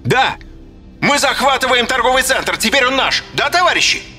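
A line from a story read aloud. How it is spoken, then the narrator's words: Shout through megaphone. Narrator (Russian): Бандит крикнул в мегафон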